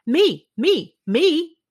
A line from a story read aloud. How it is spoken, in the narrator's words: everyone yelled